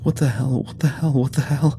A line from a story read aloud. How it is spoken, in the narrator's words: Travis was wheezing a new mantra somewhere behind us